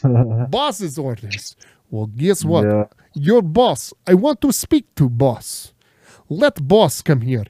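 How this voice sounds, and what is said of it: Heavy put-on foreign accent. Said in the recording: “He probably can't understand your accent either.”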